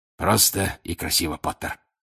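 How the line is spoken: Hoarse wheeze. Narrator (Russian): прохрипел он

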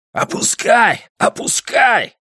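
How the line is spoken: Yelling. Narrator (Russian): завопил

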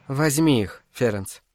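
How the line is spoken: Soft request. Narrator (Russian): мягко попросила она

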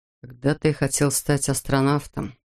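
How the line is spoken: Sad admission. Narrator (Russian): Грустно признался он

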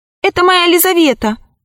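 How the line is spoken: Sorcerer shouting. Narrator (Russian): закричал колдун

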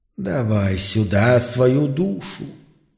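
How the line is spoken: Mutter. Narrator (Russian): пробормотало существо

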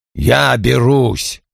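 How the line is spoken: Grumbling announcement. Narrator (Russian): объявил он ворчливым тоном

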